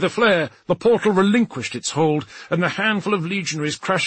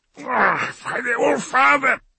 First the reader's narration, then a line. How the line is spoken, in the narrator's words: he grunted